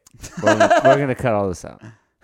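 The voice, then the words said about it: Serious, deadpan delivery. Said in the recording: “You said that so seriously”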